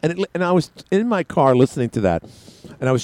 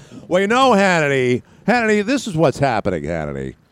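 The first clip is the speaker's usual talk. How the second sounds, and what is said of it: Bill O'Reilly impression. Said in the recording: “I was trying to do my own Bill O'Reilly impersonation.”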